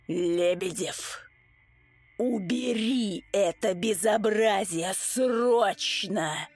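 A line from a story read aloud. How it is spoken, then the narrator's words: Hoarse, horrified. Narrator (Russian): Хриплю я, с ужасом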